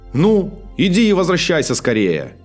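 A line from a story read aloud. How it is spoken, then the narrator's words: Shouted. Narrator (Russian): крикнул магребинец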